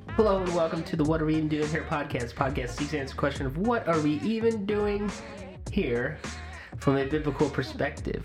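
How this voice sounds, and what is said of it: Voice sounds congested, slightly off. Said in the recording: “you have a little cold that you're getting over ... You sound different.”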